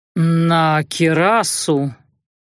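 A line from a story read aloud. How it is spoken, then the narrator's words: Uncertain. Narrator (Russian): ответил он неуверенно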